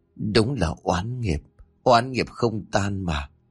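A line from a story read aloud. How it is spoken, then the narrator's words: Sighing. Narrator (Vietnamese): thở dài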